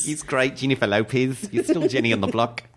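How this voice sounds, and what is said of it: Put-on Australian/New Zealand accent. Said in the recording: “I feel like I'm doing a little more New Zealand than Australian. ... New Zealand goes up a bit.”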